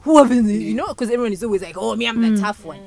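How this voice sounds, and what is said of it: Put-on Ugandan accent. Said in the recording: “Let me speak in a Ugandan accent.”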